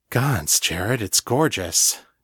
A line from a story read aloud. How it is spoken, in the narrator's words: Danny breathed